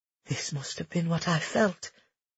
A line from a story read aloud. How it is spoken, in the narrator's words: Lucia whispered